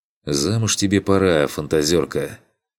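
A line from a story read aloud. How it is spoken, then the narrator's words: Heavy sigh. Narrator (Russian): Тяжело вздохнул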